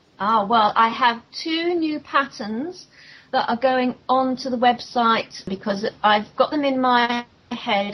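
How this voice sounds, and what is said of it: Non-American English accent. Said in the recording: “my accent is not going to, you know, be a bother with your fellow Americans out there. Even though we speak the same language, accents sometimes can trip people up”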